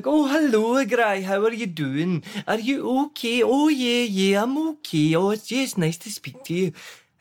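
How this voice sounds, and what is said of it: Imitated rural Scottish Teuchter accent. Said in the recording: “he would put on this Chuchter accent”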